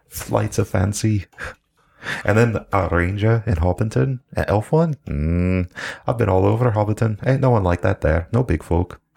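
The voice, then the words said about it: Put-on character accent. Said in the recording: “When the accent was on, I thought you were speaking in character.”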